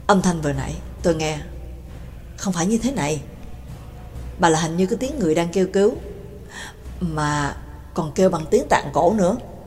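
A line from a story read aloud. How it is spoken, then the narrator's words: Cold whisper. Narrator (Vietnamese): Cường Ba lạnh giọng thì thầm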